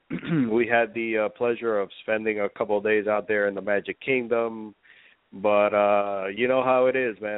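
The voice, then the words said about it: Congested, stuffed-up voice. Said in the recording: “I've been stuffed up for the past few days ... my voice sounds a little stuffed up”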